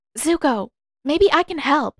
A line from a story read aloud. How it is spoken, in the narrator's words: she exclaimed